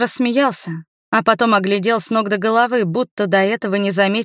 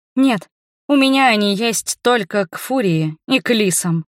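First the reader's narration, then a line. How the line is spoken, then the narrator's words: Grumbling mutter. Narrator (Russian): пробурчала я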